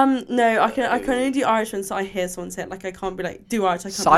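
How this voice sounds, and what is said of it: Usual voice. Nothing is said of it.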